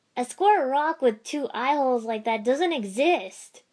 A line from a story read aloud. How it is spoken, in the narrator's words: Naruto finally shouted